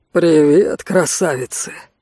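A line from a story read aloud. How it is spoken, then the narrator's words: Deep voice from doorway. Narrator (Russian): пробасил от двери Рэй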